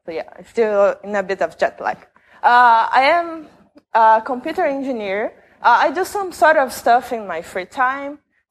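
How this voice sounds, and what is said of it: Brazilian-accented English. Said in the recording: “I am from Brazil, so sorry about my accent.”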